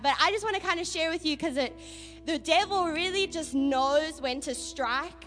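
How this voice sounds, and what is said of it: Strong foreign accent, slurred words. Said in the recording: “Her accent is nicely sharp again ... You're slurring your words”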